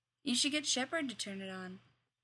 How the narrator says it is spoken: Dumay said

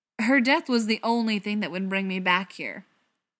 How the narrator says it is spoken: Tom said, his voice raising more than he wanted

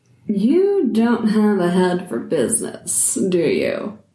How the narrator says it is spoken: She said, smiling with a hint of a sneer

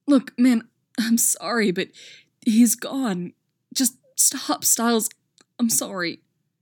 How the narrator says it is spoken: Scott's saying, his voice choked up and painfully earnest

